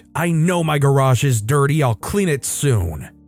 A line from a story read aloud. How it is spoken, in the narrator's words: she immediately snapped